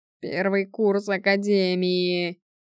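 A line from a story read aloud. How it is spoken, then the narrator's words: Groaned. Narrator (Russian): простонал Стерлинг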